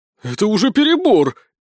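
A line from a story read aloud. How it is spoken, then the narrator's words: Frightened exclamation. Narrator (Russian): испуганно воскликнул Сисюля, когда Безос взвела курок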